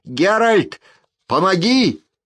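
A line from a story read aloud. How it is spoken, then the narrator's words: Yelling. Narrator (Russian): Ширу орал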